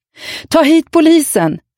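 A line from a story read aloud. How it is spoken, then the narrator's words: Shouted. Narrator (Swedish): skrek jag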